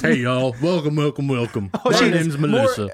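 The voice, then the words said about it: Southern-accented impression of another person. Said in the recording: “more Southern ... your ability to just impersonate people”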